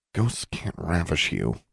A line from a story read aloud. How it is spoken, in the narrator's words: Alexandra muttered